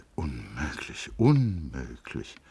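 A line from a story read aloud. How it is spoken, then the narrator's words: Mumble. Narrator (German): murmelte er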